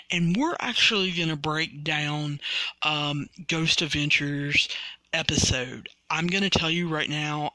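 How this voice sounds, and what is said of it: Slightly raspy voice. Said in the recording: “as you guys can hear, I'm getting a little raspy myself.”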